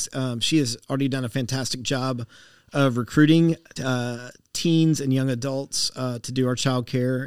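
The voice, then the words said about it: Southern American accent. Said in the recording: “you've got your Southern accent back ... it was always there just under the surface ... it comes back”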